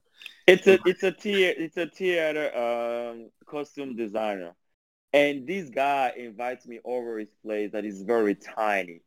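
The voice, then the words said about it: Non-native, French-accented English. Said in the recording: “you guys forgive my accent, and there's some words that I might say wrong ... You could say it the French way”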